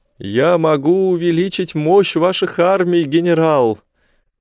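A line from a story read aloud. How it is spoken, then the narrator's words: Shouted. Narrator (Russian): прокричал я Атталу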